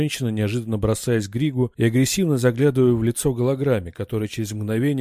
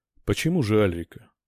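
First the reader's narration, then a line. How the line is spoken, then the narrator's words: Calm smiling. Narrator (Russian): спокойно улыбнулся Риллиот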